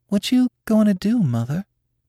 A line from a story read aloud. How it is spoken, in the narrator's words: inquired Nanny in a timid voice